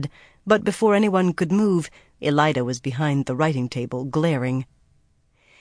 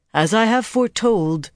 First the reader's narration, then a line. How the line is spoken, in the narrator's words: she intoned